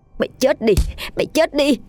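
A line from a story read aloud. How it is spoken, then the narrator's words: Shrieking. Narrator (Vietnamese): rít lên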